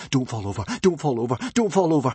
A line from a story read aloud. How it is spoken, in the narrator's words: begged Hiccup